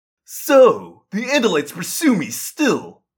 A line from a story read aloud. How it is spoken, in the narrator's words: he sneered